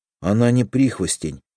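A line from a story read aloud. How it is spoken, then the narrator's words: Gloomy. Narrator (Russian): мрачно сказал Петя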